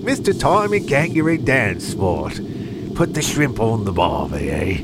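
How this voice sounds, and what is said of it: Attempted Australian accent. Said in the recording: “that's as close as I can get to an Australian accent anyway”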